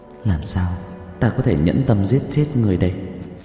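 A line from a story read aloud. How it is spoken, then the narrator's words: Muttering. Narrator (Vietnamese): Dương công tử lẩm bẩm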